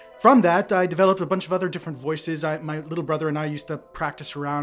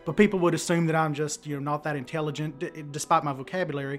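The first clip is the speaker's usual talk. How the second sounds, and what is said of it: Oklahoma accent. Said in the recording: “I moved up here from Oklahoma when I was 16, so my original accent was like this”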